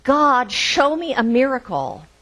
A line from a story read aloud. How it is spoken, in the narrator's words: And the man shouted